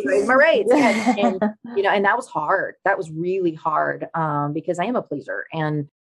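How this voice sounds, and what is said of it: Speaks with a noticeable accent. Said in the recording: “great accent ... I love the accent”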